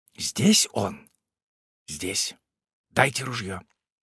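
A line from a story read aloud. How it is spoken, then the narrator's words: Whispered question. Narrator (Russian): белолицый шепотом спрашивал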